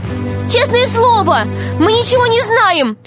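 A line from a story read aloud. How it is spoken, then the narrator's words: Shouting. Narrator (Russian): закричала Алиса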